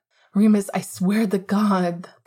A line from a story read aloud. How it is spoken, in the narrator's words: Sirius said rather desperately